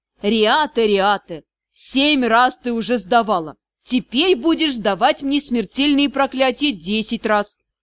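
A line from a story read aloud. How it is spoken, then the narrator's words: Reproachful snort. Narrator (Russian): Тесме хмыкнул, укоризненно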